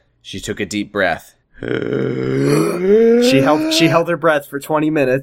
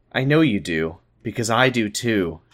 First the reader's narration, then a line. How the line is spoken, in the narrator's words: she finally said